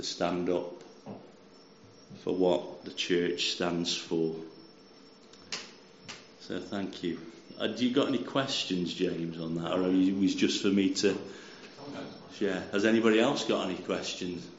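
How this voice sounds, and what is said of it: Stoke-on-Trent English accent. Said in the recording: “Where are your accents? ... So I'm from Stoke-on-Trent.”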